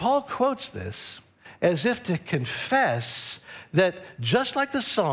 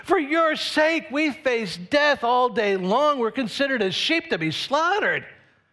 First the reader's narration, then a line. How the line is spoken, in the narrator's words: In a voice that's both angry and afraid, the psalmist shouts